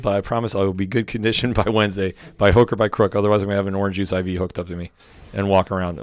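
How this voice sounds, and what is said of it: Hoarse, fading voice. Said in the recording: “losing my voice with my cold”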